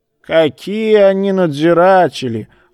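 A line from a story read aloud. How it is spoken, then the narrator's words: Snorting old man. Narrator (Russian): фыркнул старик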